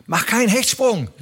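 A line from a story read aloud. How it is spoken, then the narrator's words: Calling out. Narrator (German): rief er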